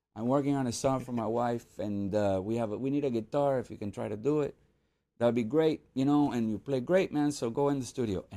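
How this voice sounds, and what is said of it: Imitates another person's accent. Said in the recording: “I'm gonna do the accent a little bit.”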